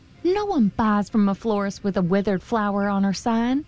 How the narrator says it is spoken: said Rose Red

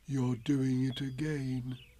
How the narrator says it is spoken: said Pooh sadly

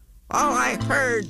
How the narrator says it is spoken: snapped the big kangaroo

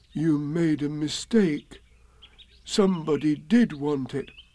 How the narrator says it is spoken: said Pooh solemnly

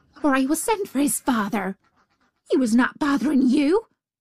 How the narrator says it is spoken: she said fiercely

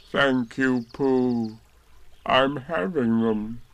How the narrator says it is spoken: said Eeyore gloomily

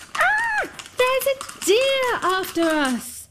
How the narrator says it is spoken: The two girls ran screaming

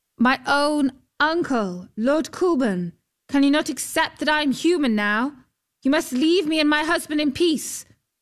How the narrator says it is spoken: called out

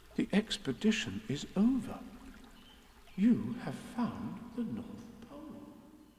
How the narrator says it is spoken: said Christopher Robin solemnly

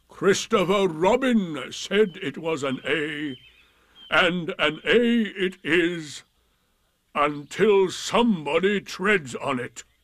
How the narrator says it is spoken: Eeyore added sternly

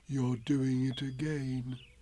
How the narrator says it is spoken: said Pooh sadly

